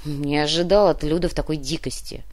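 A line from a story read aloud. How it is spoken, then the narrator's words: Grumbling. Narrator (Russian): буркнул Кортес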